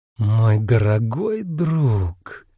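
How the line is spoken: Purring. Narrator (Russian): промурлыкал Энцо

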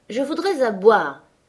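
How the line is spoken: Irritated exclamation. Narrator (French): s'écria-t-il avec irritation

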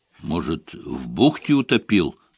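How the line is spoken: Muttered. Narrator (Russian): пробормотал воин

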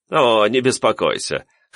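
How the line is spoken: Young man's guffaw. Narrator (Russian): хохотнул парень

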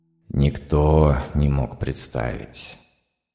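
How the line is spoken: Sighing machine voice. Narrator (Russian): вздохнул я, электронный разум

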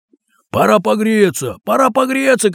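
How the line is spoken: Group shouting. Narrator (Russian): кричали и другие

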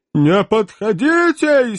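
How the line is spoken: Hysterical howl. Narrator (Russian): истерически взвыл милый Веллер

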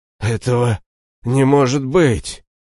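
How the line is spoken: Hoarse wheeze, man. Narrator (Russian): прохрипел мужчина

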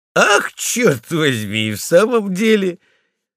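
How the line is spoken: Fire chief laughing. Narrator (Russian): засмеялся брандмейстер

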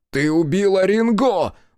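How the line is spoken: Shouted. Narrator (Russian): закричал Хицу

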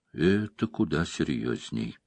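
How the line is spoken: Quiet. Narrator (Russian): тихо произнесла она

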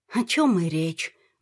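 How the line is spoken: Sad wry chuckle. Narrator (Russian): грустно усмехнулась Ната

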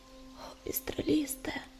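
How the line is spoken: Young woman's whisper. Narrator (Russian): прошептала юная целительница

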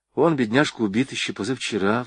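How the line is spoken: Sigh. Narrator (Russian): вздохнула Варя

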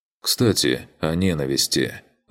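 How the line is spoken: Sigh. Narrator (Russian): вздохнул я

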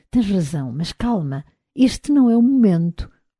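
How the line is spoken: Murmur. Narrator (Portuguese): murmurou-lhe

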